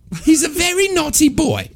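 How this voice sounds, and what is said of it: Comic Cockney woman's voice. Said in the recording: “when I do a woman's voice for years, would just do his voice. ... I was a Cockney lady. ... I'm always Terry Jones.”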